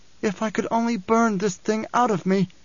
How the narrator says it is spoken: she cried

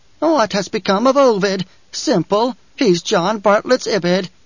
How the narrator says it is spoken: An insane cackle within her head asked

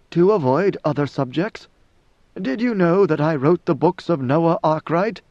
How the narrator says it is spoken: She could not suppress a chuckle

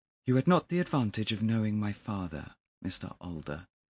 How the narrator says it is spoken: he said coldly

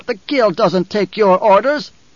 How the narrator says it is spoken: the taller of the two barked

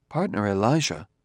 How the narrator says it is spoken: said Daniil softly

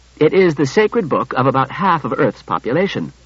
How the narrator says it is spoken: He said curtly

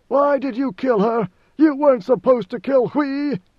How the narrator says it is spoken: with frantic rage, screaming

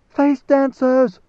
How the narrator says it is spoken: Leto heard the scream

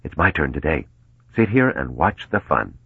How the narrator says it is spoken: Mello whispered

